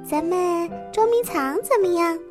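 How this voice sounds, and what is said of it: Very thin, small character voice. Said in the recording (Chinese): “他又听到一个很细的声音说”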